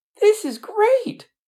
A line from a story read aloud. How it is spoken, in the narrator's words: the ant exclaimed